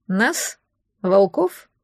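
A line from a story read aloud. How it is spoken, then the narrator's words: Plain. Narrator (Russian): спросил Берин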